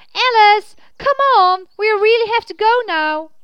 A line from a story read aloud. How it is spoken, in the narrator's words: Again he yelled